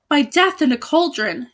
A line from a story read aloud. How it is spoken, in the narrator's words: exclaimed the sorrowful knight